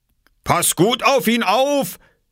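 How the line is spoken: Calling after someone. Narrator (German): rief Bauer Johansen ihm hinterher

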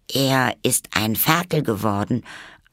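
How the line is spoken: Very calm, matter-of-fact. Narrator (German): antwortete Alice sehr ruhig, gerade als wäre die Katze auf gewöhnliche Weise zurückgekommen

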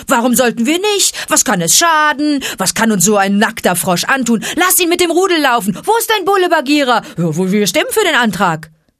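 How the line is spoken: Hoarse barking from afar. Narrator (German): wieder erklang heiseres Bellen vom Felsen her

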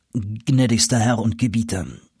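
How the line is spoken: Plain. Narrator (German): antwortete dieser

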